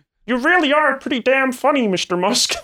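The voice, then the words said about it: Jordan Peterson impression, Kermit-like. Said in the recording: “do a good Peterson impression... That was just Kermit. That was just Kermit... All I heard was Peterson”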